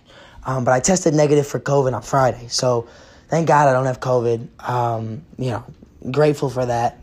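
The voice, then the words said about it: Hoarse, fading sick voice. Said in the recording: “I'm coughing. I have I'm losing my voice ... seeing when my voice is going to come back”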